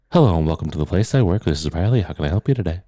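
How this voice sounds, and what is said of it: Light, polite phone voice. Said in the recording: “I am speaking in the lightest voice possible ... phone voice”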